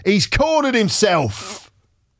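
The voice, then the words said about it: Put-on Cockney accent. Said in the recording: “in a Cockney accent”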